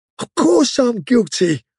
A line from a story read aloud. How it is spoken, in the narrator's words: cried Parsons